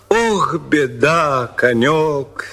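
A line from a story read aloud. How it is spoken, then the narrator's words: Plain. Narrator (Russian): сказал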